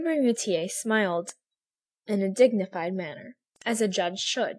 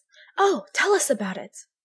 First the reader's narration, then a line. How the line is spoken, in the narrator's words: Several women exclaimed at once